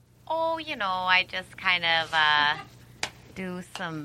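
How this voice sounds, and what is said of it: Put-on accent, unidentifiable. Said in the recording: “I don't know what that accent is.”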